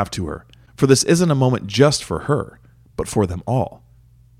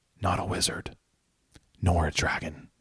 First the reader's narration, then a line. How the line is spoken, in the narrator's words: Daisy whisper to Eleanor amid the eruption of cheering and applause